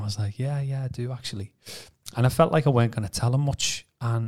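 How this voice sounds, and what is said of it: Usual voice. Nothing is said of it.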